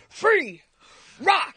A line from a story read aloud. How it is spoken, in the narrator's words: I'm yelling